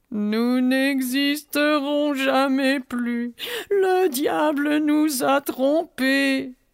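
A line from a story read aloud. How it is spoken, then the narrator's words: Whimpering. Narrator (French): pleurnicha Chewing-Gum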